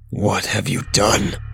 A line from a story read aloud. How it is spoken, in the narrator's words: His voice shook